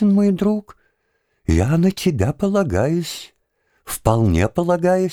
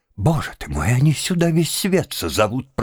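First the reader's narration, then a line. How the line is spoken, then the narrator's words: Despairing moan. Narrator (Russian): простонал господин Галяткин, ломая руки в отчаянии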